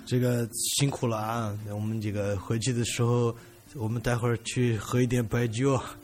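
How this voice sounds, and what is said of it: Imitated local regional accent. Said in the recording (Chinese): “那种当地的口音”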